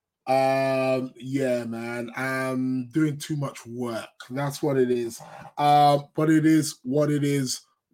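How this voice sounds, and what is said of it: Croaky, sniffly voice. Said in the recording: “As you can tell, I've got a croaky voice. I'm going to be doing the show today in a croaky voice. I'm also going to be, you know, sniffing a little bit, maybe even sneezing.”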